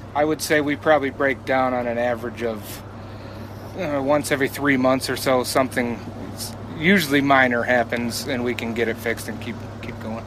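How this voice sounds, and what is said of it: Backwoods Michigan accent. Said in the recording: “the backwoods Michigan accent. He can't help that.”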